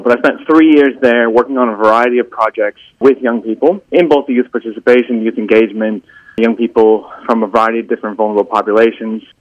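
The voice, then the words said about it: American accent. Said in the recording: “if you can tell by my accent from the podcast, I'm not from Australia originally. I'm from the U.S. originally”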